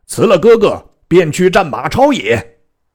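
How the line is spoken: Shouting. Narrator (Chinese): 张飞大叫而入曰

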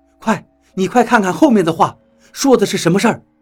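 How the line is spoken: Shocked, hurried urging. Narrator (Chinese): 何洛显然非常的震惊，他急忙催促道

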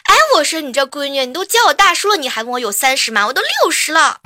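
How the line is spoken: Angry old man. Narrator (Chinese): 老人家一下子就怒了

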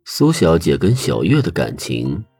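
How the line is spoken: Laughing. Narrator (Chinese): 许离笑道

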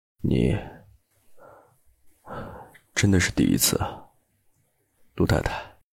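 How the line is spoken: Murmuring. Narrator (Chinese): 他喃喃道

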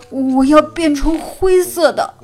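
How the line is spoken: Shouting. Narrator (Chinese): 哈瓦尔叫道

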